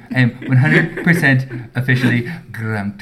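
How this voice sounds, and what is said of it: Imitates another person's voice. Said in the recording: “That's my Jareth Miller impression.”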